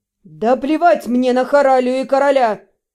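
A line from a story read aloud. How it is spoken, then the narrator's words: Barked, interrupting. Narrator (Russian): рявкнул Вашарий, обрывая мои сбивчивые объяснения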